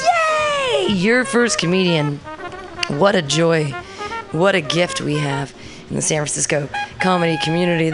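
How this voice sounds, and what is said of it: Smooth morning radio jazz voice. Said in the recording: “Great radio voice, too. ... That's an excellent, like, morning radio jazz voice.”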